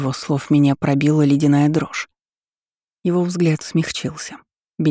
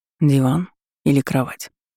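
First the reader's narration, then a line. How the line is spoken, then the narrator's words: Tender whisper. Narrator (Russian): ласково прошептал он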